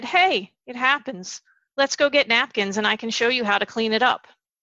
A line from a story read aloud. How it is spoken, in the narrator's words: This dad calmly said